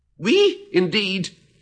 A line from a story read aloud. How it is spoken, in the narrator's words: cried the mouse, who was trembling down to the end of his tail